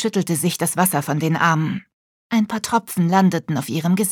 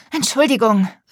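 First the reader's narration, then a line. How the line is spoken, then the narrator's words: Call. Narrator (German): rief Wiebke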